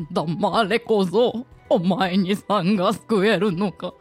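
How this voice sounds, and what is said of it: Imitates a film character's voice. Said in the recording (Japanese): “もののけ姫のモロ、はい、あの三輪明宏さんの声のモノマネ ... 似てる、似てる”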